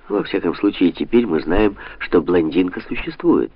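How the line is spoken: Plain. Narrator (Russian): сказал Санта-Мария

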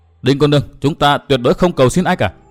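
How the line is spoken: Stern voice. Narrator (Vietnamese): chàng nghiêm giọng

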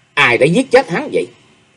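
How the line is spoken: Suppressed furious question. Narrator (Vietnamese): Chàng không sao đè nén được lửa giận, hai mắt đỏ ngầu, nhìn mọi người một lượt hậm hực hỏi

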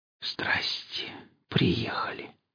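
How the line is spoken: Whispered through blue lips. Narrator (Russian): прошептал посиневшими губами

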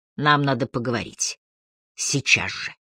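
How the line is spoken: Whisper. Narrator (Russian): шепот

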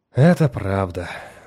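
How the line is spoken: Sigh. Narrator (Russian): вздохнул Мурнал

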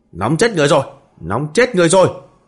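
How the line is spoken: Roar. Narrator (Vietnamese): Từ Tranh gầm lên

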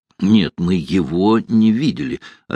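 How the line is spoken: Plain. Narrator (Russian): ответил Данила Яранский

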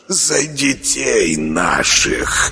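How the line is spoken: Fervent whisper, thin hermit. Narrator (Russian): горячо зашептал тощий отшельник

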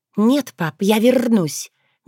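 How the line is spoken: Soft but firm objection. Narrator (Russian): мягко, но уверенно возразила Крылана

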